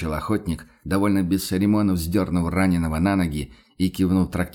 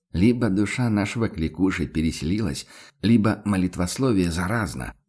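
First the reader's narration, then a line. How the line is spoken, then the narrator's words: Grumbling. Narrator (Russian): буркнул Ван Ален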